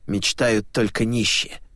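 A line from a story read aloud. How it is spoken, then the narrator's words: Angry reply. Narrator (Russian): зло ответил Филатов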